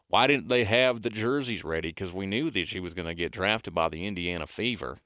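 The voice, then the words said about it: Puts on an accent. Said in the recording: “That's a good accent”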